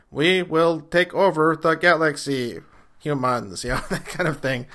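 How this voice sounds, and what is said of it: Robotic alien-like voice. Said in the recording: “classic robotic, and or to use a later example, like a Coneheads like voice”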